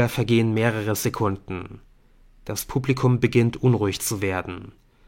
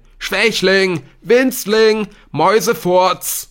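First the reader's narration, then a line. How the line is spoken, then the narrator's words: Loud. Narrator (German): werden laut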